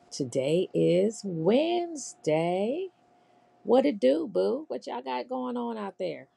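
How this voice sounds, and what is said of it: Scratchy voice. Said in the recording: “My voice is a little scratchy”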